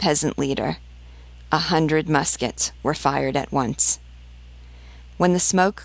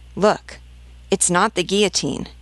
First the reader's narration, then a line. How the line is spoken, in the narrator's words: exclaimed the leader